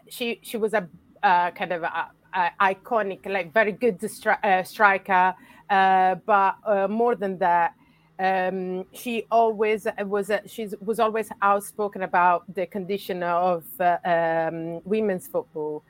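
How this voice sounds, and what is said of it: Italian accent. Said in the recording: “I'm from Italy, as you can guess from my accent.”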